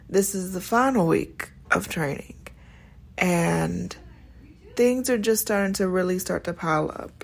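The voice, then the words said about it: Tired, weary-sounding voice. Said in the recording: “You can probably hear it in my voice. I'm sounding a little bit tired because I am.”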